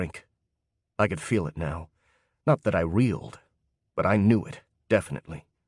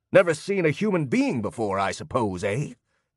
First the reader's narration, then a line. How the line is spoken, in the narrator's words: He snapped again